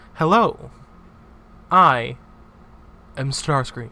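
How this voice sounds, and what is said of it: Suave but robotic, AI-like voice. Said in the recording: “The real Starscream voice is just suave ... Yours kind of sound like an AI.”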